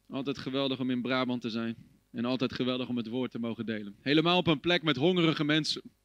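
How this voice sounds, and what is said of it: Dutch with slight American accent. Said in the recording (Dutch): “als je een beetje een accent hoort. Ik ben een Hollander, maar ik praat een beetje Amerikaans.”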